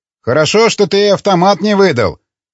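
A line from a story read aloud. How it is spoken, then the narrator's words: Deliberately loud. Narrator (Russian): нарочито громко произнес Масуд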